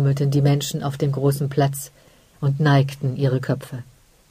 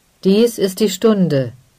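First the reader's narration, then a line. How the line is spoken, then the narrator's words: Call. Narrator (German): rief er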